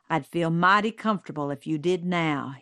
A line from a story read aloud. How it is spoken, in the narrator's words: he said